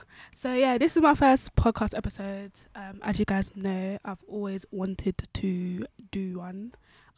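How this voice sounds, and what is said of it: Sweet, overly nice voice. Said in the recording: “sweet girl voice... you're speaking bare nice into the mic”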